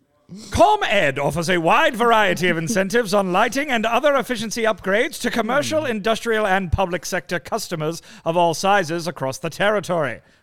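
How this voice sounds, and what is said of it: Fake British accent. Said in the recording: “fake British accent”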